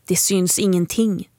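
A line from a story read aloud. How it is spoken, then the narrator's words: Plain. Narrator (Swedish): sa hon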